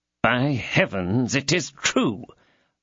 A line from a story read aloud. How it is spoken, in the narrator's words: muttered the commissary